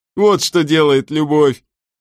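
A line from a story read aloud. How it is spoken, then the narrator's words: Laughing. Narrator (Russian): засмеялся Плосконос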